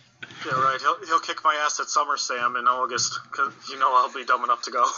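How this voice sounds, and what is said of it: Usual voice. Nothing is said of it.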